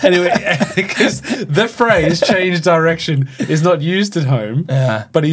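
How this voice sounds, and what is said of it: Usual voice. Nothing is said of it.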